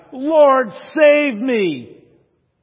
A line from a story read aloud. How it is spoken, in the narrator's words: as he begins to sink, he cried